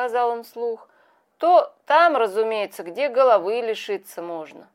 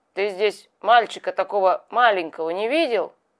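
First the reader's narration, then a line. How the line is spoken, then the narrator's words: Rough questioning voice. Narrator (Russian): спросил мужик Петю грубым голосом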